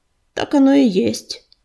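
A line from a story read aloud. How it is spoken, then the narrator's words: Dry agreement. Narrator (Russian): сухо согласился ураган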